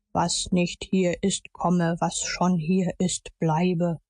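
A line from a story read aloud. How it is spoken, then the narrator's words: Solemn declamation. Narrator (German): deklamierte mit feierlicher Stimme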